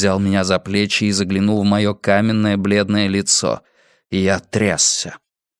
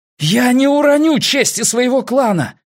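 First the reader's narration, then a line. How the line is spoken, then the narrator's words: Shouting. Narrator (Russian): крикнул я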